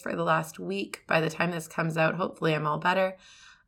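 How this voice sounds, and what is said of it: Scratchy, squeaky hoarse voice. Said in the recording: “my voice is a little bit scratchy. I've been fighting laryngitis ... you get me a little bit scratchy and squeaky today”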